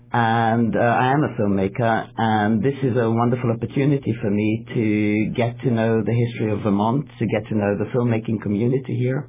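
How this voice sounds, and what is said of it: English accent. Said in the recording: “as you can probably guess from my accent, that I'm not a native Vermonter ... I've come over from England”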